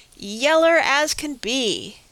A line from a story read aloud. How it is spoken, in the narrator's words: Praiseworthy exclaimed